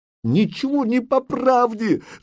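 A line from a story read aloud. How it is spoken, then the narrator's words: Shouting. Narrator (Russian): закричала Зарица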